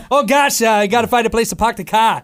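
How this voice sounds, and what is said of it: Weird attempted Boston accent. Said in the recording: “That was a weird New England accent. ... That was an attempt. ... Boston.”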